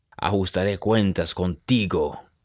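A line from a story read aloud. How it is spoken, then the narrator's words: Growled. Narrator (Spanish): gruñó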